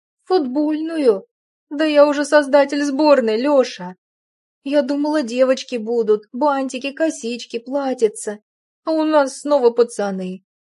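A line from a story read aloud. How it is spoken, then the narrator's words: Anguished moan. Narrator (Russian): Страдальчески простонала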